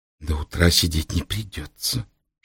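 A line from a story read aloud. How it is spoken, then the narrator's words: Butterfly whispering. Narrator (Russian): шепнула бабочка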